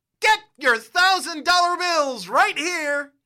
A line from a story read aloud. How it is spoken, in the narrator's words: You shout